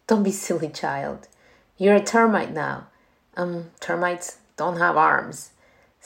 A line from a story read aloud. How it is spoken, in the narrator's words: said the queen